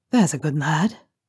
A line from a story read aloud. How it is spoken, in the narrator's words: murmurs softly